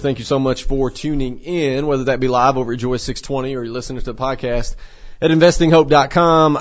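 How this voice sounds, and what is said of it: Congested, sinus-affected voice. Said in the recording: “my voice is a little bit different this morning ... sinuses, allergies”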